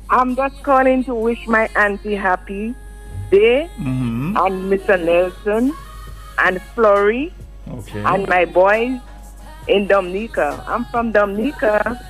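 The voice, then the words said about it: Dominican accent. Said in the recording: “I pick up the accent.”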